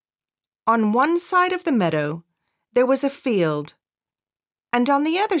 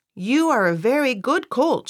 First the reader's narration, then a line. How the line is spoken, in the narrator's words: she said